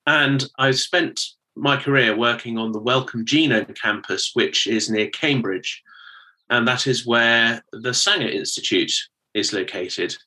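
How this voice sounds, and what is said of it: British accent. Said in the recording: “you can probably tell from my accent that I'm from the United Kingdom”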